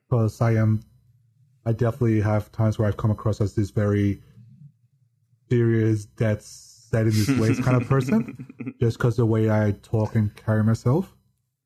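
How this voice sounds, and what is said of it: Deadpan monotone voice. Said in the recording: “I have a deadpan monotone voice”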